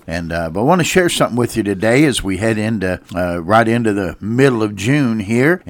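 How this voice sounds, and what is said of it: Slightly congested, strained voice. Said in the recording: “I do apologize for my voice today. I've got allergies have been particularly difficult ... it affects my voice a little bit”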